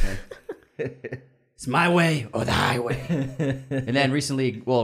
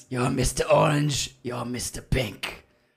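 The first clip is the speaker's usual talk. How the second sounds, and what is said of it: Impression of another person's voice. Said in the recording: “That's a pretty good impression of Joe.”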